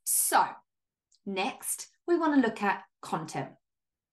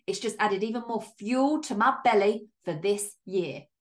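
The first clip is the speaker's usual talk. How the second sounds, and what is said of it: Odd put-on accent on a phrase. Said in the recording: “I don't even know what accent just came out there, but it was like, my belly.”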